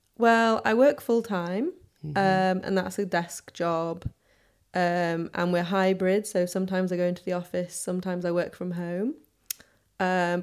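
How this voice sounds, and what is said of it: Soft Northern English accent. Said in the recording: “I had a soft northern accent because I say bath instead of bath, path instead of path ... I don't think you have too strong an accent”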